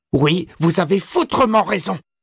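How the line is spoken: Shrill shout. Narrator (French): cria Todd d'une voix aiguë

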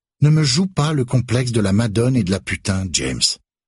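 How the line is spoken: Curt retort. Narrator (French): réplique sèchement Elena

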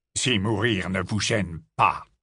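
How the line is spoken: Harsh, rough retort. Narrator (French): lança Rogue d'un ton rude

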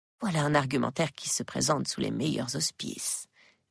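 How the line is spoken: Murmur in the ear. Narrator (French): murmure-t-il à mon oreille

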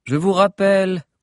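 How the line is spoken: Monotone. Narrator (French): continua Vanille d'un même ton monocorde

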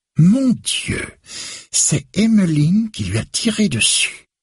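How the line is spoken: Exclaimed. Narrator (French): s'exclame-t-elle

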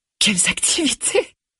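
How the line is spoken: Strange, too high-pitched exclamation. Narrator (French): s'exclafa Vanessa d'un ton bizarre, trop aigu

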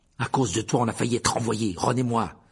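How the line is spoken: Fierce. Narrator (French): dit-il d'un ton féroce

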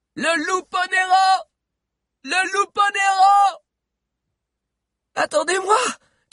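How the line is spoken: Shout from behind. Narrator (French): cria la voix de Gulot derrière elle

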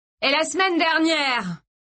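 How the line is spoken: Shouting. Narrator (French): continua Mark en criant

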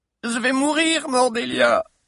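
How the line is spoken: Whimpering. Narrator (French): gémissait ce gros douillet de Mouk

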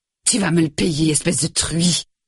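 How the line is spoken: Hissing. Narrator (French): siffla-t-il encore

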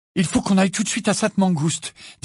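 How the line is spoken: Feverish, urgent voice. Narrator (French): dit Ginny d'une voix fébrile

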